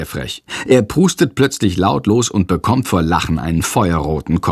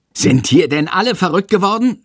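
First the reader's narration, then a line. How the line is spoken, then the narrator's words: Shouting. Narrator (German): schreit Herr Lersiko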